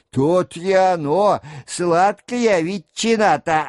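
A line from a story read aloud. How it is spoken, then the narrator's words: Laughing reply. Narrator (Russian): отвечал другой с хохотом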